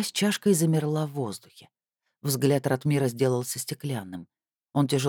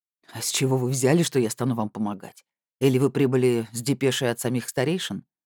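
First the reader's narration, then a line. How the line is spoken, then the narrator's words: Skeptical snort. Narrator (Russian): Остромысл хмыкнул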